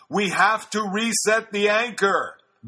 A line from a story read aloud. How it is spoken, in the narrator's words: He yelled